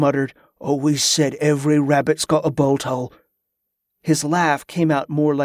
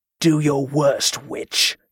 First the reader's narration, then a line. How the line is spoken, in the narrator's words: Cabot growled, his voice becoming more animated, more alive